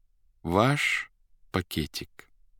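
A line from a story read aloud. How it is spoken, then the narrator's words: Thoughtful. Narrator (Russian): задумчиво сказал первый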